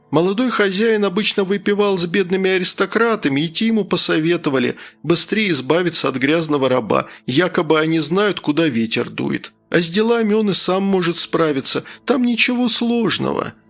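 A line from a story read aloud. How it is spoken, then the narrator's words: Sad, smiling. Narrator (Russian): грустно улыбнулся Саха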